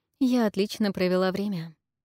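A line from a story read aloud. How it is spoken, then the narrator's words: Plain. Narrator (Russian): сказала она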